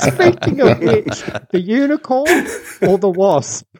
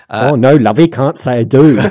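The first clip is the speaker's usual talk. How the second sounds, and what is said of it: Put-on Cockney accent. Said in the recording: “that hilarious Cockney accent she suddenly starts to put on ... Are you doing the accent?”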